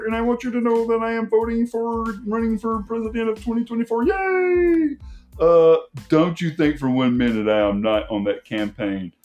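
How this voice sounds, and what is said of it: Kermit the Frog puppet voice. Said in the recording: “If Kermit the Frog came on tomorrow and said ... I can't do the voice great ... I'm no Jim Henson.”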